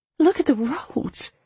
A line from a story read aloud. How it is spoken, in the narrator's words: Isabel gasps